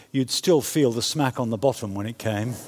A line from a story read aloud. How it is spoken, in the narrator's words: Mark, our son, who was lying on the sofa, apparently paying no attention at all, simply muttered in a matter-of-fact voice